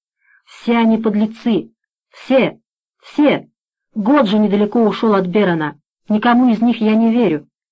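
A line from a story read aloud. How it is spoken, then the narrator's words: Heavy loud moan. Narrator (Russian): Тяжело и громко застонал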